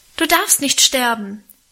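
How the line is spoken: Passionate cry. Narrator (German): rief ich leidenschaftlich

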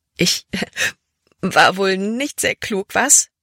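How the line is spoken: Loud amused laughter. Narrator (German): Als wäre es das Lustigste, was sie je getan hatte, lachte sie laut heraus

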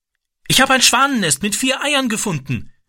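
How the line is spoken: Calling out. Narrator (German): rief er

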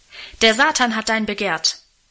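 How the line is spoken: Calling out to her. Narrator (German): rief er ihr zu

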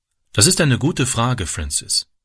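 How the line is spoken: Plain. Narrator (German): sagte sie

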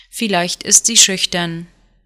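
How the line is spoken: Dry smile. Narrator (German): Juda lächelte trocken

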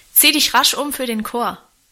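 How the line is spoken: Calling after. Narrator (German): rief Guste hinter ihr drein

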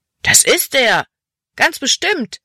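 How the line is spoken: Boy calling out. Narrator (German): rief ein anderer Junge

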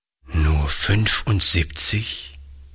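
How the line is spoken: Old man, sad. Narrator (German): wiederholte der Alte traurig

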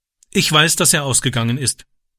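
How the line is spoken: Plain. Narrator (German): sagte er

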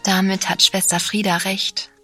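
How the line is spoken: Very gentle. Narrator (German): sagte ich jetzt sehr sanft

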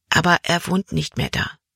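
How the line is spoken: Whisper. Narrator (German): flüsterte Caleb

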